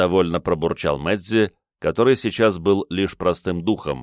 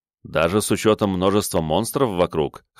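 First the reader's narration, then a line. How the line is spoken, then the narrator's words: Wry snort. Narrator (Russian): хмыкнул я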